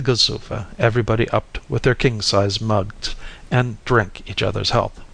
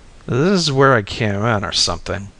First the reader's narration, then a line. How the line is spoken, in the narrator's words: I groaned